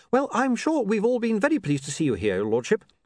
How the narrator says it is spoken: said William brightly

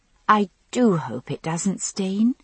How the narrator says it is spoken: I said sweetly

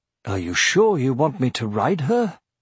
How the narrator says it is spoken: asked Brom

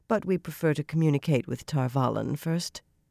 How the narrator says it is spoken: Elias replied smoothly

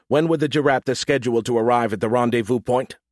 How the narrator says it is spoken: I raised my voice

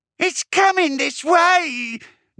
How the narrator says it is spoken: Nisquick wailed

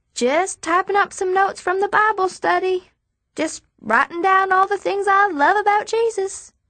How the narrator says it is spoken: I holler down

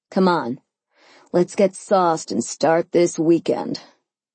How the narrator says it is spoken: he chuckled

